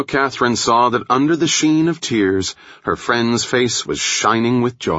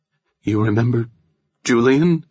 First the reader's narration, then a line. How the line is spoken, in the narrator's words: Nora asked, her voice trembling when she spoke the name